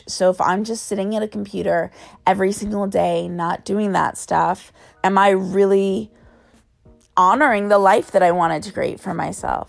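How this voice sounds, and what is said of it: Raspy voice. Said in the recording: “Sorry for my raspy voice.”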